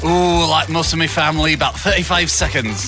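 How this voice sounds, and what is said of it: Put-on Scottish accent. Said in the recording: “Seamus is Scottish... Very Scottish... Aye, and the accent.”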